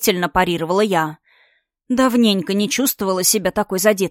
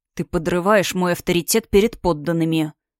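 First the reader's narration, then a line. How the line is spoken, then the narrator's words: Through gritted teeth. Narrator (Russian): процедил Астор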